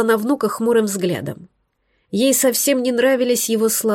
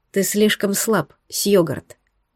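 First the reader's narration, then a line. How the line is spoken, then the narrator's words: Quiet, completely calm. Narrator (Russian): сказала она тихо и уже совершенно спокойно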